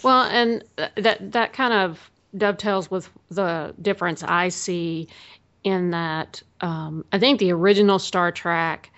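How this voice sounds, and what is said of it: Regional accent, 'Trek' sounds like 'track'. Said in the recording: “my accent keeps coming out, so you say track ... I was noticing that ... it's my accent. I know it's Star Trek, people”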